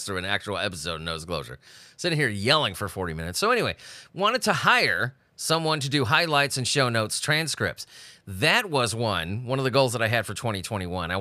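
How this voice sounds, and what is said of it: Sick, congested-sounding voice. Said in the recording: “You can still hear it in my voice, can't you? I'm still getting over this fucking cold.”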